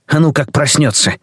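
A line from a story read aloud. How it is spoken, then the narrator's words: Old man mumbling in sleep. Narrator (Russian): старик пробормотал сквозь сон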